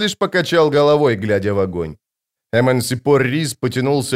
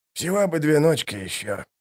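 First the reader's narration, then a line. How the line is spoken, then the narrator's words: Muttered. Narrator (Russian): пробормотал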